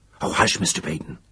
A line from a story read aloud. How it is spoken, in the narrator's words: said Cornwell in whispered agony